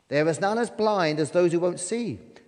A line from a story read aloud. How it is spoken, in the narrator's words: chirped the little bird